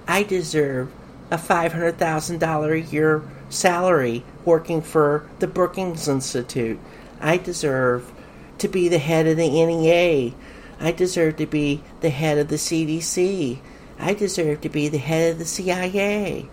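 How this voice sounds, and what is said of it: Mocking, sarcastic delivery. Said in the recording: “hear the mockery in my voice ... Yeah, I'm mocking”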